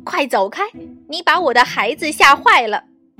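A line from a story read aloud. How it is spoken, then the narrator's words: Angry loud mother. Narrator (Chinese): 鸭妈妈气坏了，大声说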